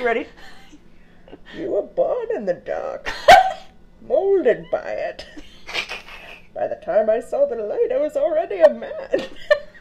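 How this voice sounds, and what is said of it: Bane villain voice impression. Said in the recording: “If you do it to a cup, it works really well. I work on my Bane impression a lot. ... It's flawless ... I can sure do Bane from Batman.”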